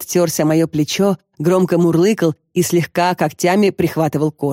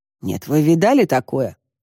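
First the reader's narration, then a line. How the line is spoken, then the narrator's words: Grumbling. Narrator (Russian): проворчал Костя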